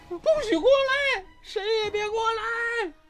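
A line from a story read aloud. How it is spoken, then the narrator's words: Hysterical screaming. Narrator (Chinese): 刘美荣 歇斯底里的高喊着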